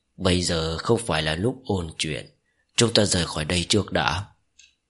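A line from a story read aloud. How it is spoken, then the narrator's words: Slightly hoarse voice. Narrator (Vietnamese): Giọng nói của Ninh Chuyết có chút khàn khàn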